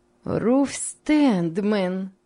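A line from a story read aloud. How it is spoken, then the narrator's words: Joyful greeting. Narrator (Russian): сказала Рахиль, радостно приближаясь к ней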